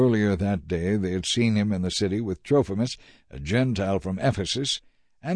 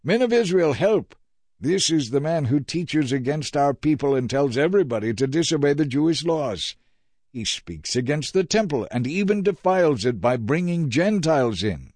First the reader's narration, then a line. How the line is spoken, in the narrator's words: yelling